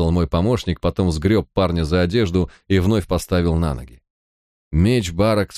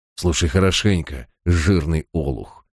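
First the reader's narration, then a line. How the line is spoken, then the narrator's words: Through gritted teeth. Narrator (Russian): процедил он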